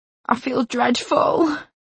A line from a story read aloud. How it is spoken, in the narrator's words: she groaned